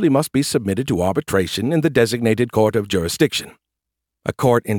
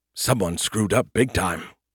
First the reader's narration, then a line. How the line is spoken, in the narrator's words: he muttered